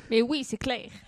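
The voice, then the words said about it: Imitates another person's voice with accent. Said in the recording (French): “Pourquoi il a un accent comme ça ? ... Parce que c'est Eddie Malou”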